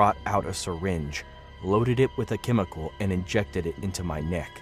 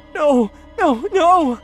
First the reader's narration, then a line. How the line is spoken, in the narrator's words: I cried